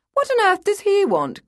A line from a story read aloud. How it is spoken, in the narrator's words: cried Lady Montfort Bebb